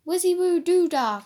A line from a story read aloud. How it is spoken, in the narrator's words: cried Keith